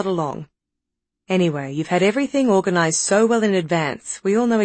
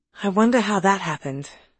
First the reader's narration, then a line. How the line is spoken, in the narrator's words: sighed Alice